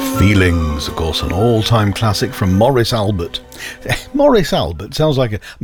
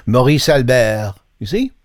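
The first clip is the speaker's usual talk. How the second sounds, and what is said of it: Mock French accent. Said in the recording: “He sounds much better if you say his name with a French accent. ... Suddenly posh.”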